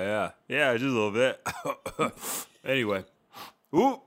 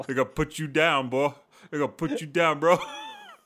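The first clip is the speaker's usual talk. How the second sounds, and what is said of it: Put-on American accent. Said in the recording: “You're talking all modern now. You're talking all American now.”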